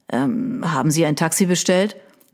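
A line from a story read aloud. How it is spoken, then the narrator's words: Mumbling around a cigarette. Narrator (German): nuschelte er mit der Kippe im Mundwinkel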